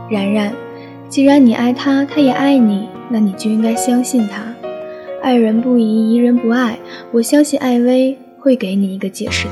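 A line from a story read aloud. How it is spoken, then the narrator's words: Earnest, serious. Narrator (Chinese): 陆佳佳一改平时的不着调，认真的说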